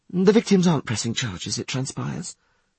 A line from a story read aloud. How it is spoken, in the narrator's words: she sighed